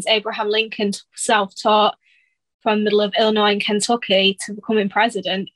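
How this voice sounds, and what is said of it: British accent. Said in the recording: “you are one of our UK friends. That accent ain't just for show. You actually are from over yonder.”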